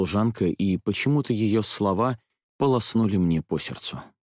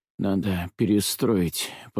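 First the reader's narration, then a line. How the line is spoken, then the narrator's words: Weak mumble. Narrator (Russian): пробормотал я, ужаснувшись слабости собственного голоса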